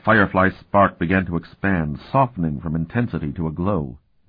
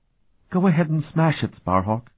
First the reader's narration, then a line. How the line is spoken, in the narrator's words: she said sadly